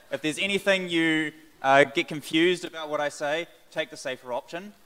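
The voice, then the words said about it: Loud New Zealand accent. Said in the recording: “I have a loud voice ... by my accent, I am from New Zealand”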